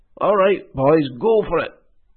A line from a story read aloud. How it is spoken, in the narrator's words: shouted Hal